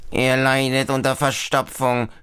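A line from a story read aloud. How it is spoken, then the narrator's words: Squeaky toothbrush voice. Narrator (German): piepst Mamas elektrische Zahnbürste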